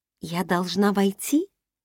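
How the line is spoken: Whisper. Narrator (Russian): прошептала я Кагалу

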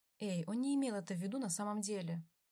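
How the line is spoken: Said softly. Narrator (Russian): мягко сказал Викензо

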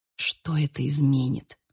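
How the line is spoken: Whisper. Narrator (Russian): прошептал

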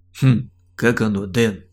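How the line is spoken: Gloating snort. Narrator (Russian): Злорадно хмыкнул он

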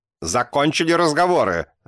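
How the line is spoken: Barked shout. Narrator (Russian): рявкнула кукушка

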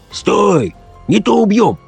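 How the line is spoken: Hoarse stern shout. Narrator (Russian): тот же хриплый голос сурово крикнул

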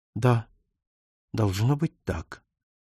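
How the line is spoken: Even voice. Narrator (Russian): произнесла ровным голосом

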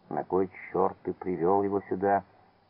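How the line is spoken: Angry whisper. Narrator (Russian): Петру, когда тот так зло шепнул ему

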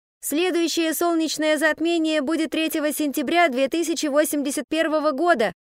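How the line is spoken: Teenage boy shouting. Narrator (Russian): крикнул девятиклассник

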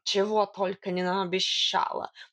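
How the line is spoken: Mocking snort. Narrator (Russian): насмешливо фыркнул кот

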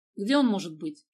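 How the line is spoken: Irritated question. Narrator (Russian): раздраженно спросил Гера

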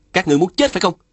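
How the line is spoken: Frightened then angry yell. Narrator (Vietnamese): Phùng Bất Thôi bất giác khiếp sợ, nhưng lập tức giận dữ hét lên

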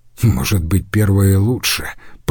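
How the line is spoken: Muttering. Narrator (Russian): пробормотал Иорданус

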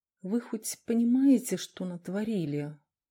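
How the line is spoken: Quiet question. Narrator (Russian): тихо спросил Дронго

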